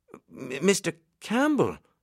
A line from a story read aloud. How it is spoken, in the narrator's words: stammered